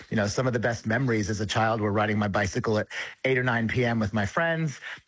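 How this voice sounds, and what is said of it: American accent. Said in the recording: “You can probably hear in my accent, I'm originally from the United States”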